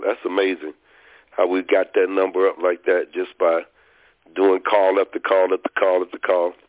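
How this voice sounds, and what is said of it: Hoarse, fading voice. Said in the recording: “my voice is almost gone. It's coming in and out. ... Had a terrible sinus attack this weekend”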